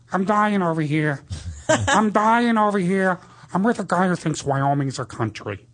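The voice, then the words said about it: Imitates another person's voice. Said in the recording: “Al Pacino has a completely different voice from the 70s, 80s, 90s, and now ... I do an impression of him, like, from the 70s, from, like, Dog Day Afternoon.”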